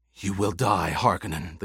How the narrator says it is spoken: the gladiator gasped

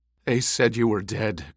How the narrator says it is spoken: Gurney rasped

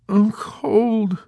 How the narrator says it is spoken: Snowden moaned with half-closed eyes

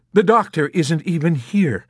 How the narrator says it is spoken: she exclaimed

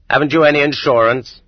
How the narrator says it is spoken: he barks curtly

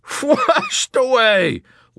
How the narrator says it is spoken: laughed Captain Black

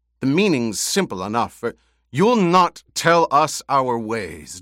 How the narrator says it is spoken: Jameis snapped

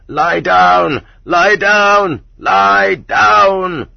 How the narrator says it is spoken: many voices vying with each other in hysterical shrillness screamed

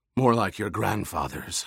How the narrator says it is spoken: Hawat rasped

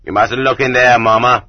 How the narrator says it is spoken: told her, but not roughly

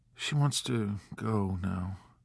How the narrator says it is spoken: he said in a faint, strange voice

